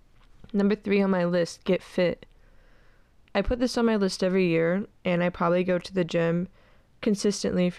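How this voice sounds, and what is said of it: Congested, stuffed-up nasal voice. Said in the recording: “I sound stuffed up. My nose has just been running consistently for the past 3 weeks.”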